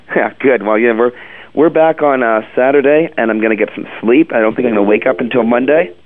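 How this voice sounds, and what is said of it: Hoarse, rattly voice. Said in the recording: “your voice gets all rattly like this, you get hoarse like a chicken ... I am just so hoarse right now”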